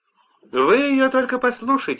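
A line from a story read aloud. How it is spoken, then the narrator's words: Exclaiming. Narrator (Russian): воскликнула Харимахини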